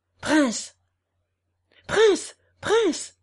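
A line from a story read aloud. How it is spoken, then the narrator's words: Guard shouting. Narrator (French): cria le garde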